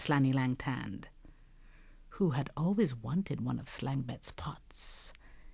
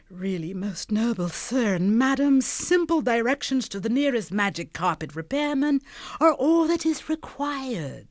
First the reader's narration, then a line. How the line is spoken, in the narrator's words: he wailed in a thin voice